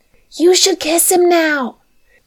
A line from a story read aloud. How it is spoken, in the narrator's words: whispered loudly